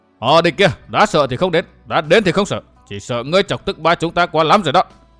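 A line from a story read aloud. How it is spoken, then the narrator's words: Raised voice. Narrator (Vietnamese): Đỗ Lão Tam cao giọng nói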